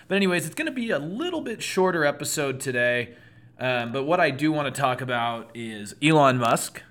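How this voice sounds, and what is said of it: Hoarse, strained voice. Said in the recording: “kind of losing my voice today. It was a loud night of trivia.”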